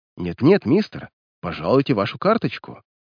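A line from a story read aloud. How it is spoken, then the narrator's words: Whispering. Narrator (Russian): пысливо шепнул черный лакей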